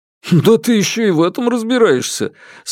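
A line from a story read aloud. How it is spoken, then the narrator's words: Laughing, teasing. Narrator (Russian): смеясь, поддразнил меня Дабао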